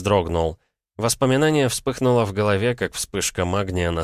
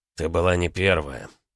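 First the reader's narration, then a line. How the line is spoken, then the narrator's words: Quiet. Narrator (Russian): тихо сказал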